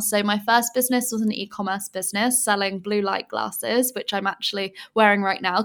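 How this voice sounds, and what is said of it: English accent. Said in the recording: “I'm originally from England, as you can probably tell by my accent”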